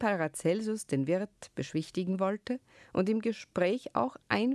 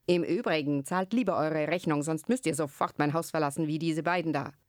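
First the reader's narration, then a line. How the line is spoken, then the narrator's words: Angry shout. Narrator (German): rief zuletzt mit zorniger Stimme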